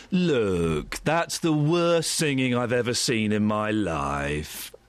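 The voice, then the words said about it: Imitates another person's voice. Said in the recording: “Simon Cowell.”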